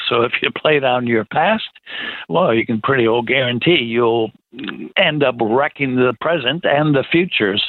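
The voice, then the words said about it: American accent. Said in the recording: “they can hear your American accent.”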